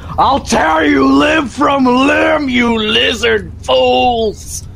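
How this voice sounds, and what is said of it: Shouting as loud as possible. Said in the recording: “As loud as I can ... You're shouting that?”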